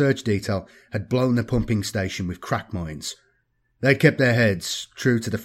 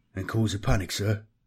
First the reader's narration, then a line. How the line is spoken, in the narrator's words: smiled Grouse sadly